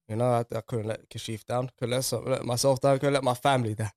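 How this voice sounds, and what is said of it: Voice strained by sore throat. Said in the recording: “I've got a bit of a sore throat.”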